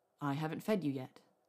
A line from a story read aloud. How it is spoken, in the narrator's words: said